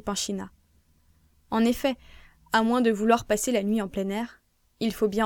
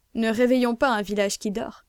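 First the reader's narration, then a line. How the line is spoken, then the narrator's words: Melodious sigh. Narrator (French): soupire mélodieusement Ivernès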